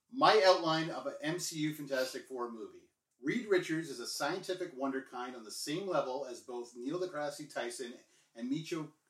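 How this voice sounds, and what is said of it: Announcer-style radio voice. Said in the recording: “put on my radio voice for this one ... Radio voice”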